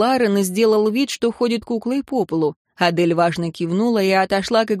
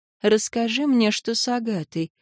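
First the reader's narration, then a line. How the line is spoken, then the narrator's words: Quiet request. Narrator (Russian): попросила сестра тихо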